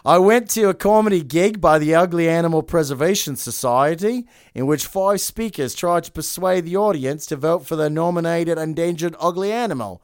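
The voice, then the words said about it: Put-on Australian accent. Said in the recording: “I'm going to do her Australian accent.”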